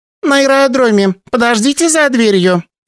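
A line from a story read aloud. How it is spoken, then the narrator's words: Squeaky young woman. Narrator (Russian): пропищала одна из девушек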